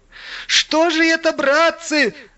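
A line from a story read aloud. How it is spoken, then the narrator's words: Exclaiming. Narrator (Russian): воскликнул Иван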